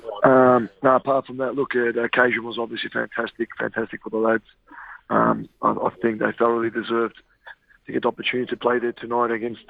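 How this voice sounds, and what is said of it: Hoarse, partly lost voice. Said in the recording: “excuse my voice. I've lost a bit of my voice.”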